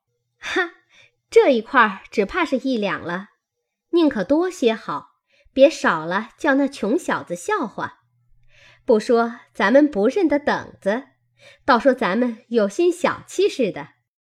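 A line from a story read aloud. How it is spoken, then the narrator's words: Laughing. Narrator (Chinese): 麝月笑道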